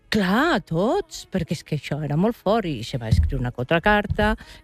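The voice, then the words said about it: Valencian Catalan accent. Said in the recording (Catalan): “el teu accent ... Volen el valencià”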